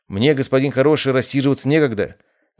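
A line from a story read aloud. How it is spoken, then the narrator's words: Rather sharp reply. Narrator (Russian): довольно резко ответил я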